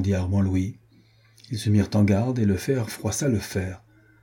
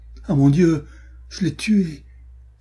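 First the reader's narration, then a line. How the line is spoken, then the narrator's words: Dismayed cry. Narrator (French): s'écria Renaud consterné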